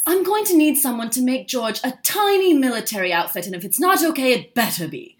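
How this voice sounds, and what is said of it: Imitates a posh woman's voice. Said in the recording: “It's actually not a bad Kate Middleton impression. ... It's not too bad. She's a little bit more posh than that”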